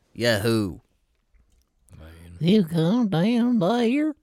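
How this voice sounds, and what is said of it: Put-on Southern accent. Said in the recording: “do your best southern accent”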